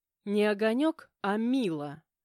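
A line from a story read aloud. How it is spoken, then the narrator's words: Growled reply. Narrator (Russian): прорычала в ответ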